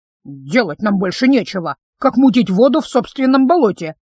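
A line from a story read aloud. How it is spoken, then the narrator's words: Grumbling. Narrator (Russian): заворчала Фима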